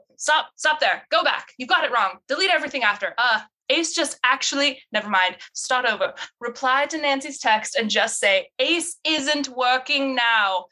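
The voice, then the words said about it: Put-on character accent. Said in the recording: “That accent is the worst. ... so funny with that accent though ... I'm more channeling her vibe than her accent”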